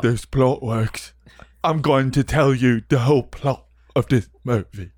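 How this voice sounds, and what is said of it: Imitates another person's voice. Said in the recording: “I wish I could do a perfect accent. I can't. ... Michael Caine. You know? I can't do it.”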